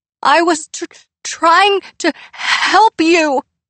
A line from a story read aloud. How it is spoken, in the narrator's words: Pip stammered